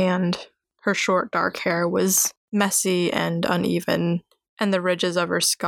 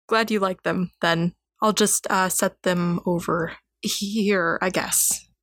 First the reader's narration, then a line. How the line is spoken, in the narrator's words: He stammered